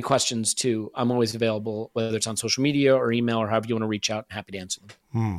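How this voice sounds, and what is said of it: American accent. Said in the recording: “you're an American guy ... Do your best to hide your accent, mate”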